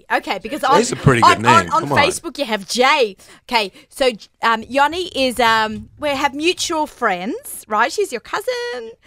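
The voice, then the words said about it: Australian accent. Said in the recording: “my crazy Australian accent”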